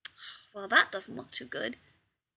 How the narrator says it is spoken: McCoy murmurs

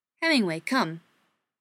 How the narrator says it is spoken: he said sharply

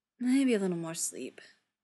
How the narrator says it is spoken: he says, slurred a little, already half out

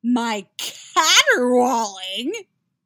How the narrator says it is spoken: Yaskir objects in a shrill voice

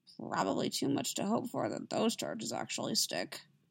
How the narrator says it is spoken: Anakin muttered, still shocked by the revelation about Amidala

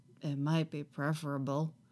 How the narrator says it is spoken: Qui-Gon admits quietly

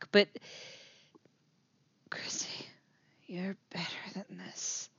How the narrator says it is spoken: he whispers

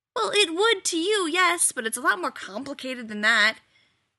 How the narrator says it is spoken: Rodney snapped

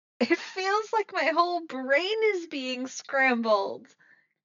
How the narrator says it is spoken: Chrissy shouts, and her voice is barely heard over the blaring sound

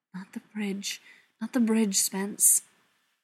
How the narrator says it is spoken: silently plead

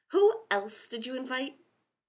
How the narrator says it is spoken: He snapped

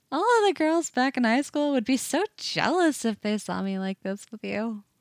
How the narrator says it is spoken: she says, still laughing a little

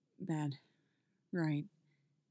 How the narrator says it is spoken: mutters Tim

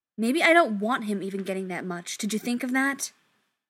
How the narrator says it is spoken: Charles snaps back

